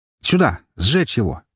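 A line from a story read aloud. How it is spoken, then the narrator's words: Hurried shout. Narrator (Russian): поспешно крикнул я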